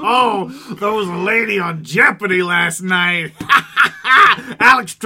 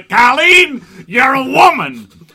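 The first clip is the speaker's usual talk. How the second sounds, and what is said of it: Alex Trebek impression. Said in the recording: “my Alex Trebek impression.”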